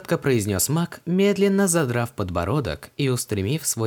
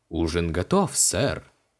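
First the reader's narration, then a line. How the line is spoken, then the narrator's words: Solemn announcement. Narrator (Russian): торжественно объявил он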